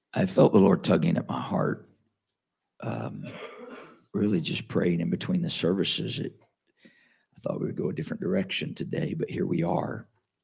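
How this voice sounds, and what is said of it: Sick, rough-sounding voice. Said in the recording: “I sound terrible. ... I've been popping cough drops all morning, throat lozenges.”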